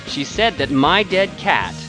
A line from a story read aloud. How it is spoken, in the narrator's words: paused, raising his voice